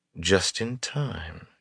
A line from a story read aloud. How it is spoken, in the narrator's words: she murmured